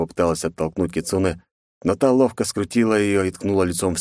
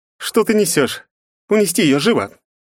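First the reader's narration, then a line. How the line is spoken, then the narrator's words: Barked command. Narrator (Russian): гаркнула Кицуна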